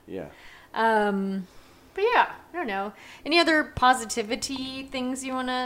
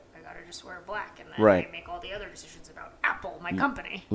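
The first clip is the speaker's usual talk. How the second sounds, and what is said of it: Steve Jobs impression. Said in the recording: “That was me as Steve Jobs. ... That was a great impersonation”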